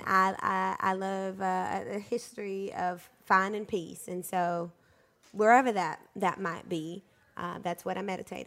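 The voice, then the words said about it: Mixed Southern-type American accent. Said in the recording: “Where does your accent come from?... I think it's a hodgepodge... No one in L.A. in Los Angeles talks like you, right?... You have like a southern type accent”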